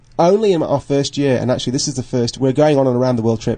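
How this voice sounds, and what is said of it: British voice with slight Australian accent. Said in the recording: “starting to sound more and more like one of them ... picking up the accent slightly ... I sound like I'm Australian”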